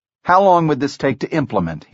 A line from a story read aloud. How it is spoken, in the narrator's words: he asked